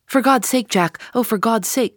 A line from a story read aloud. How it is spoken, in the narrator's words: cried poor, distracted Eddie